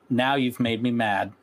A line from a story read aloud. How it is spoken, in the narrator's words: Twilight said